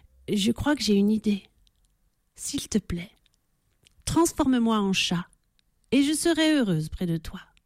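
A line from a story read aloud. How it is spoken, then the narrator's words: Embarrassed whisper. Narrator (French): chuchote-t-elle un peu gênée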